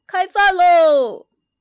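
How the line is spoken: Calling out. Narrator (Chinese): 熊爸爸喊

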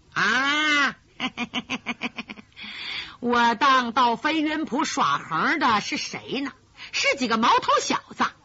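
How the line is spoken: Laughing, condescending. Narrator (Chinese): 鬼影子甘飞哈哈一笑，倚老卖老的说

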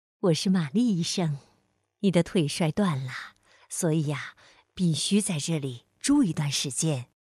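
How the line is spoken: Gentle answer. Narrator (Chinese): 一个温柔的声音回答说

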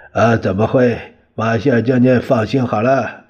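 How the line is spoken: Smiling. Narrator (Chinese): 蒋介石笑了笑

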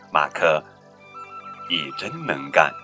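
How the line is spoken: Father, soft. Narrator (Chinese): 爸爸轻声地说着

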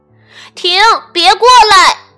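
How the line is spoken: Shouting. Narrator (Chinese): 他喊道

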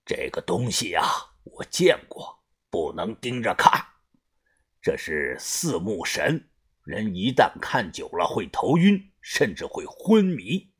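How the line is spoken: Low, grave voice. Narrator (Chinese): 把头沉声的说道

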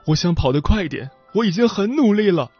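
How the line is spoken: Boy sobbing loudly. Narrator (Chinese): 少年一边嚎啕大哭，一边说道

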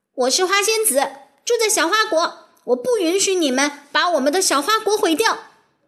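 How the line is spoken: Loud shout. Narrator (Chinese): 辛宝莲娜大喊

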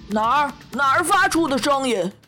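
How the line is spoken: Flustered shout. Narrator (Chinese): 他却慌慌张张地大叫

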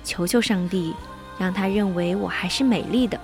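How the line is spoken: Whisper. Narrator (Chinese): 他悄声说

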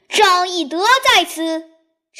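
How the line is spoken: Loud battle cry. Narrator (Chinese): 为首大将大叫

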